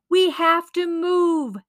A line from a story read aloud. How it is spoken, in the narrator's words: shouted Barilo